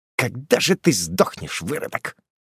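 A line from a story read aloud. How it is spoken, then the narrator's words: Hateful, through clenched teeth. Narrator (Russian): процедил он сквозь зубы со взглядом полным ненависти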